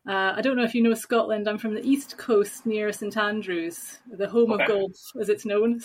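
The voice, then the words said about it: Scottish accent. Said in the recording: “you might have guessed by my accent that I'm not Dutch. I'm actually Scottish.”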